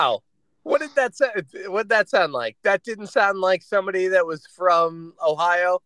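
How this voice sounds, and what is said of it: Usual voice. Nothing is said of it.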